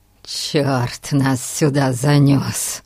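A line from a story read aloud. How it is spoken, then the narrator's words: Groan. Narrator (Russian): Простонал Гун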